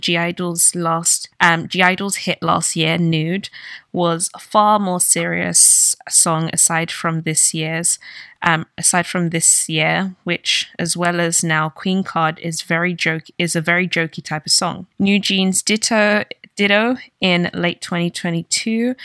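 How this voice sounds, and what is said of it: Australian accent. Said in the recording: “Sounded very Aussie”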